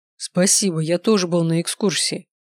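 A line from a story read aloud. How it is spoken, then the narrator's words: Scoffing snort. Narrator (Russian): хмыкнул Даниэль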